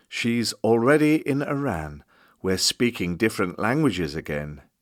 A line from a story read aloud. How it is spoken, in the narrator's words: singing quietly